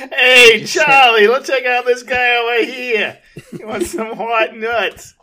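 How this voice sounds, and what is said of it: Put-on New York accent, sounds Boston. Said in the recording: “That was a little Boston, actually. ... anytime you try to do a New York accent, yeah, it becomes a Boston accent”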